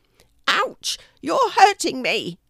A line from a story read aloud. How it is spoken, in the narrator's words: squeals the blackbird, trying to wriggle out of Archie's mouth